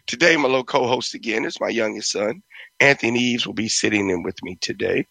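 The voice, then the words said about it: Hoarse, strained voice. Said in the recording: “I'm a little hoarse. ... my throat is crazy”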